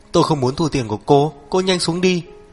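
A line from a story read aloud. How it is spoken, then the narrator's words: Terrified speech. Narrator (Vietnamese): Lái xe vô cùng sợ hãi, nói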